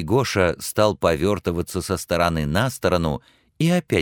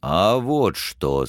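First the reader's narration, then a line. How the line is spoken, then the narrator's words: Deep bass voice. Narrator (Russian): сказал он густым басом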